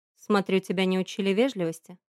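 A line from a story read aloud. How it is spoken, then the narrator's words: Calm question. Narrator (Russian): спросил он спокойно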